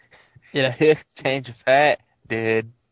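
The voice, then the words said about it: Bad guttural accent with surfer-dude twang. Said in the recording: “It has to sound like more of a guttural English accent with a bit of the California dude tongue ... I'm probably doing a horrible accent.”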